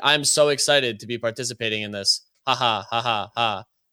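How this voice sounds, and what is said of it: Flat monotone imitation of another person. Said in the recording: “that's like basically the exact tonality that they had. It's crazy the monotonous tone ... doing a great impression”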